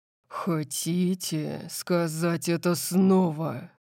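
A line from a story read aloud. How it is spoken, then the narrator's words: Low voice. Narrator (Russian): спросил Дариус низким голосом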